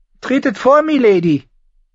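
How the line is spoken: Calling with a smile. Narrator (German): rief lächelnd

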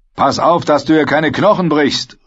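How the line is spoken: Calling out. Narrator (German): rief ihm Oswig zu

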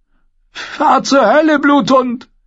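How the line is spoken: Screaming in helpless rage. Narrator (German): schrie sie Sandor Clegane hilflos vor Wut an

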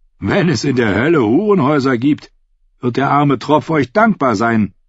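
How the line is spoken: Shouting down from above. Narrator (German): rief der Ritter herunter

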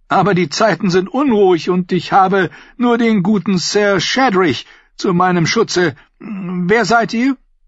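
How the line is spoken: Merchant calling out. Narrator (German): rief der Kaufmann

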